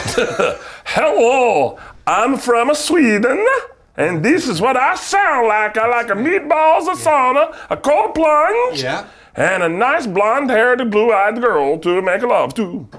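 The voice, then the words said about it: Exaggerated put-on Swedish accent. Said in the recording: “hear your impression of what you believe a Swedish man sounds like ... This is going to come off culturally insensitive ... I thought that was excellent”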